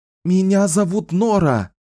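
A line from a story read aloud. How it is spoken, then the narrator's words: Shouting. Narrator (Russian): прокричала она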